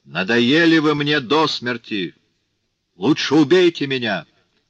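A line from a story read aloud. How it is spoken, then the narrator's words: Shout. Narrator (Russian): крикнул Жану Вальжану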